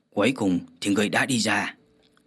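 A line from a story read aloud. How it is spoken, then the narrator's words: Grinning shout. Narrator (Vietnamese): hắn nhe răng cười quát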